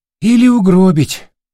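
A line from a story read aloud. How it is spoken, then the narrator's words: Sigh. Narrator (Russian): вздохнул Олецкий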